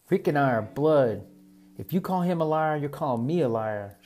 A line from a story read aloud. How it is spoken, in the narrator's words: Sugar yelled